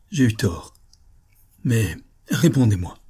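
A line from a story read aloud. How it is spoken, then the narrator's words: Stammering. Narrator (French): balbutia-t-il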